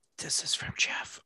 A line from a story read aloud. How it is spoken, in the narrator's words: whispering